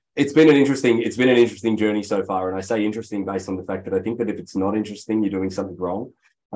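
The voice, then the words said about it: Australian accent with a twang. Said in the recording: “there's a funny twang to my accent. ... it's not from Texas or Boston ... It's Australian.”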